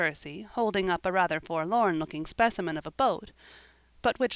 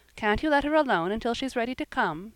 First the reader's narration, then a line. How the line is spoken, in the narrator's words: said Jasper, quickly